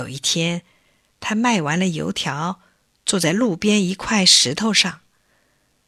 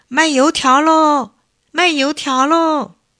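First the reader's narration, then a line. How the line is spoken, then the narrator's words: Child hawking, shouting while running. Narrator (Chinese): 有个小孩…一边跑一边嚷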